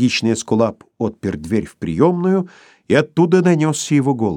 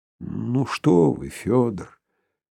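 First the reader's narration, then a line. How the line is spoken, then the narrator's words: Sad grumbling mutter. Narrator (Russian): печально буркнул Филипп Филиппович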